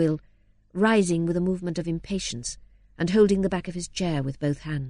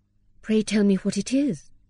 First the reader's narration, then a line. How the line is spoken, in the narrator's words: said Dorothea, anxiously